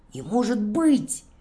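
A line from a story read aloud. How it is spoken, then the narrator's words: Exclaiming. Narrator (Russian): воскликнул Бобик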